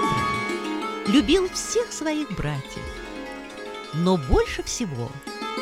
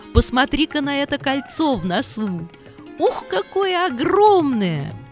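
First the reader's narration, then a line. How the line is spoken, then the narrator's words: Laughing. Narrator (Russian): смеялся Лакшмана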